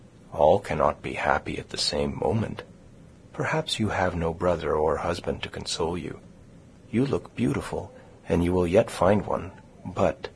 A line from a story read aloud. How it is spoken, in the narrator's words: continued, dropping her voice to a whisper